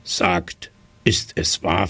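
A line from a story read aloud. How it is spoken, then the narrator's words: Plain. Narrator (German): fragte er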